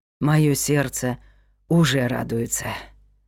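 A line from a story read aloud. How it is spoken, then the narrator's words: Breathless exhale. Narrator (Russian): выдохнула Аделаида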